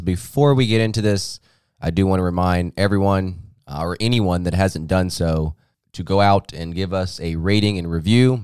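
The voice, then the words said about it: Hoarse, fading voice. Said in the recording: “I'm losing my voice a little bit”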